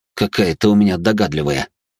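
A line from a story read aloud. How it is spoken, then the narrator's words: Amused snort. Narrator (Russian): хмыкнул он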